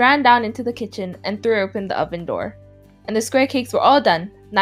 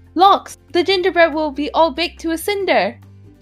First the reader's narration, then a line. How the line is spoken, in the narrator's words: in a hurry and exclaiming